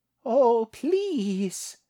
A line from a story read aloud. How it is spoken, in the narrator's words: whined